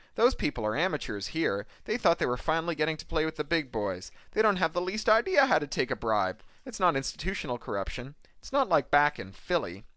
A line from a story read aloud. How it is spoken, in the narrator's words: says Thackeray cheerfully